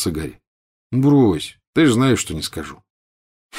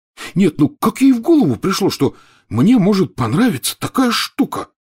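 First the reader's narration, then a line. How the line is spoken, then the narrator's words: Stunned exclamation. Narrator (Russian): потрясенно воскликнул Рон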